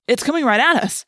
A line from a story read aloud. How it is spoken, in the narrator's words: cried